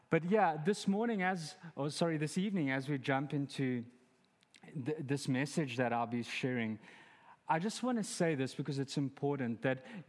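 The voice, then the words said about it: Noticeable foreign accent in English. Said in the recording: “with my accent, even though I said start, it sounded like I said, you have to stop”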